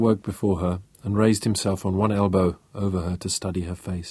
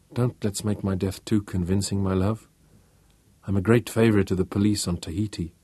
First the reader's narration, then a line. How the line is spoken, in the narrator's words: she murmured